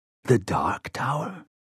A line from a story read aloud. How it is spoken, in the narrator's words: He whispered the words